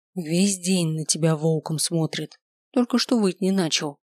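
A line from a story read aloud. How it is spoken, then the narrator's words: Whisper. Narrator (Russian): шепнула Миранда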